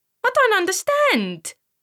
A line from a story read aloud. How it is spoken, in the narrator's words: he squeaked